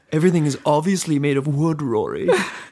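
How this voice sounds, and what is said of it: Imitates another person's voice. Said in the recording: “Doing your Peter voice.”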